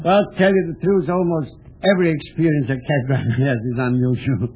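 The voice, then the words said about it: Foreign accent that sounds French. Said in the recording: “My accent, they everybody thinks I'm a Frenchman.”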